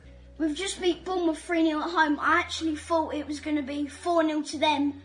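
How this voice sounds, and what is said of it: South London accent. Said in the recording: “There's only so much of the South London accent I can take.”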